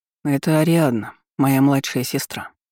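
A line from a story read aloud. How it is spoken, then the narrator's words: Calm remark. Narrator (Russian): спокойно заметил Олаф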